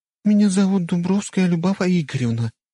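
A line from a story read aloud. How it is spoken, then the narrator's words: Gentle, tender voice. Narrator (Russian): ласковым голосом представилась Любава, и звучало это так нежно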